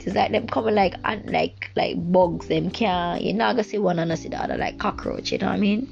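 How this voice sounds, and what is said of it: Jamaican accent and vernacular. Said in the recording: “the Jamaican vernacular is coming out, our Jamaican accent is coming out”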